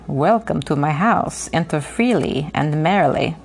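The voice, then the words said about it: Put-on slightly foreign accent. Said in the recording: “in fluent, slightly accented English ... Oh, that was great. Great accent.”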